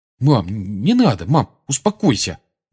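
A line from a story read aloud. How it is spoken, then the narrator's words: Mumbling. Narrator (Russian): бормотал он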